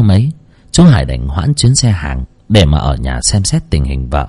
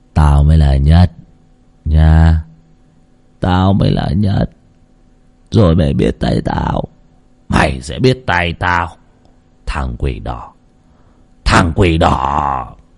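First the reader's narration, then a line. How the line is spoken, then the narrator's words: Muttering. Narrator (Vietnamese): Nó ... lẩm bẩm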